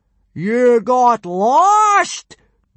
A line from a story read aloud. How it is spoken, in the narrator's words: boomed Gobber, not believing his ears